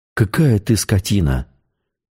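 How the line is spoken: Breathed out. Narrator (Russian): выдохнула Светлана

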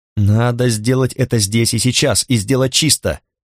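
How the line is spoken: Nasal voice. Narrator (Russian): прогнусавил Ульрик Дюбель

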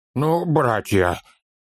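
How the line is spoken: Breathed out. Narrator (Russian): выдохнул Торин

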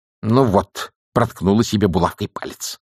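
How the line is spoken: Grumbling old woman. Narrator (Russian): проворчала матушка Буревей

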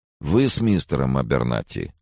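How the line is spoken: Dry question. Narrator (Russian): сухо спросил он

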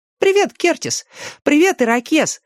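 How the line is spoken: Cheerful greeting. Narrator (Russian): Весело обратился к ним Дэнни

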